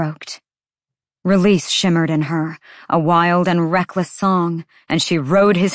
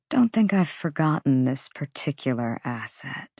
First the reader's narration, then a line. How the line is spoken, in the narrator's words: he murmured